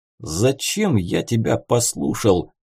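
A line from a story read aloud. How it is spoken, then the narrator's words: Hissing through teeth. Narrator (Russian): шипел сквозь зубы Таран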